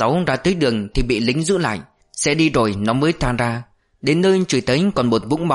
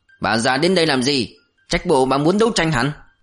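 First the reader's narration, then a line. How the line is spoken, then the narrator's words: Hostile growl. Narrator (Vietnamese): Thằng Hai Rớt gầm gầm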